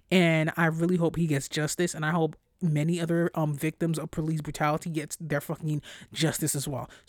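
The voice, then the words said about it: Stressed, agitated voice. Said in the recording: “It's fucking stressful, as you can hear in my voice.”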